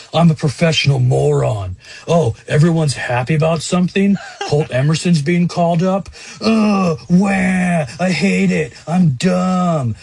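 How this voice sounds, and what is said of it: Impression of Mike Salk. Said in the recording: “my favorite Salk impression”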